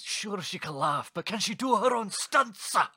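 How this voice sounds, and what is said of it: Put-on Scottish accent. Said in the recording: “What about Scottish? ... That's my Scottish you? accent. ... That's it. That's my Scottish.”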